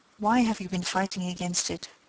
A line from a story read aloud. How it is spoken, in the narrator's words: she asked